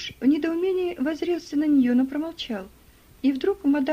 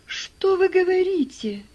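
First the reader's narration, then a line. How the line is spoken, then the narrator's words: Astonished exclamation. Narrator (Russian): воскликнул Джордж вне себя от изумления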